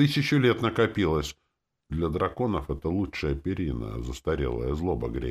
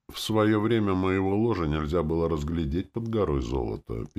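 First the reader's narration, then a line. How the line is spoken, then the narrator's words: Old man's sad sigh. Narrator (Russian): печально вздохнул старик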